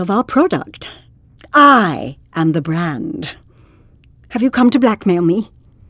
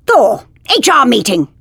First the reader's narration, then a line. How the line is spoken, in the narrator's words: She barked at him